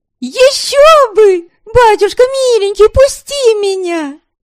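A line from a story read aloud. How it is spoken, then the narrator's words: Startlingly loud wail. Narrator (Russian): Завопила она так, что Милорада у печи от неожиданности чуть не выронила горшок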